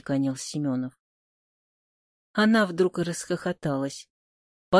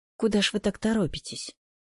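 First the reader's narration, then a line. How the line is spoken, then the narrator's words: Sighing mother. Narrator (Russian): вздохнула мать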